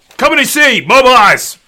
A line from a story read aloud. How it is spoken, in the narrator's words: shouts